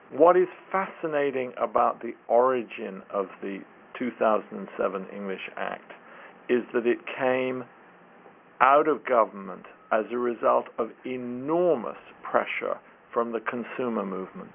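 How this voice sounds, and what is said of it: British English accent. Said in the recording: “my funny accent makes me sound like I support the English ... I'm not just a knee-jerk Brit, despite my accent”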